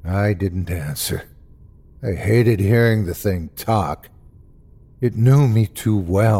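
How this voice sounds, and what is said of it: Usual voice. Nothing is said of it.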